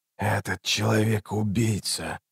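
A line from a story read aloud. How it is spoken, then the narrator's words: Hoarse rasp. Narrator (Russian): прохрипел Раллик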